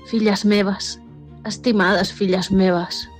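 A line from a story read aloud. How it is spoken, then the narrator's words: Sighing dragon. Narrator (Catalan): va sospirar el drac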